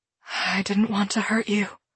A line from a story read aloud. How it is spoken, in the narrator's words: she whispers